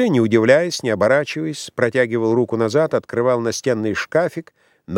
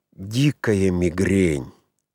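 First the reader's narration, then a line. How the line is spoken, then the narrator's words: Pained whisper. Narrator (Russian): Актер с побледневшим лицом, со страдальческими, помутневшими глазами, шептал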